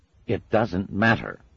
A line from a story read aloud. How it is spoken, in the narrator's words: snapped the Metatron